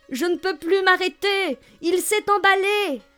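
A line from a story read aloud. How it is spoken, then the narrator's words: Shouting. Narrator (French): criait Kayvan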